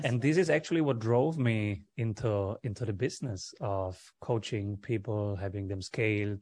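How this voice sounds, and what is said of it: Speaks with a noticeable accent. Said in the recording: “love your accent, dude”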